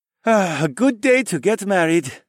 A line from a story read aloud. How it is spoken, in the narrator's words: Tae sighed